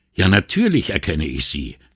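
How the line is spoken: Sharp retort. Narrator (German): entgegnete sie scharf

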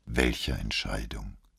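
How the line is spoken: Tired question. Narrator (German): fragte Moro müde

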